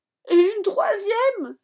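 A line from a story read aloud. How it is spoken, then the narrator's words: Yelled. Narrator (French): hurle Manu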